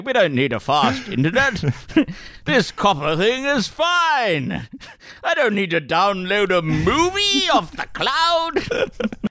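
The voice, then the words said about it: Imitates another person's voice. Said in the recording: “your Christopher Pine impression is coming along swimmingly.”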